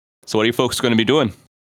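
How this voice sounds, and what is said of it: Put-on Canadian accent. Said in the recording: “Is that your best Canadian impersonation? ... It was okay.”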